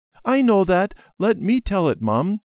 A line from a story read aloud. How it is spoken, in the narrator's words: Debbie said eagerly